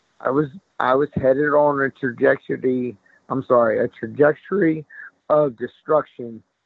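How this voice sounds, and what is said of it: Choked-up, emotional voice. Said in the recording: “little choked up”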